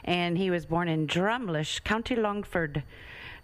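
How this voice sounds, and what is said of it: Put-on Irish accent. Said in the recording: “Did I say that good with a good accent?”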